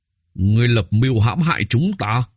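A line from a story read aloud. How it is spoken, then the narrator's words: Fierce, through gritted teeth. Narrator (Vietnamese): Vị Kiếp Hôi đại tiên quân kia ra sức dãy giụa, hung hãn, gằn giọng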